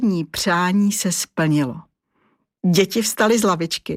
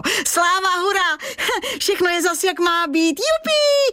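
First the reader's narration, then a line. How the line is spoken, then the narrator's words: Shouting together. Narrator (Czech): křičeli Vojta a Vašek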